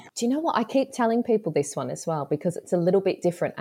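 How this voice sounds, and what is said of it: Broad Australian accent. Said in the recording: “I've still got the accent. I do still sound very Kath and Kim ... it's a long time for this accent ... he sounds very posh compared to me”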